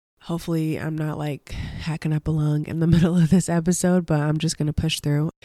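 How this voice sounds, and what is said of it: Slightly nasal, congested voice. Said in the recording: “still getting over the cold. You can probably tell in my voice that it's like a little nasally”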